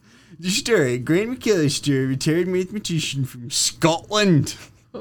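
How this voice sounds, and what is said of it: Scottish accent imitating another person's voice. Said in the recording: “This is such an accent-heavy episode. ... You like my Sean Connery there? ... That might be your best Sean Connery that you've ever done.”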